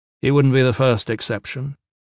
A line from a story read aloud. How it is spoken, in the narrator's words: Gavin said